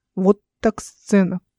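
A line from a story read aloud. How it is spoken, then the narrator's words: Muttered. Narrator (Russian): пробормотал кто-то из толпы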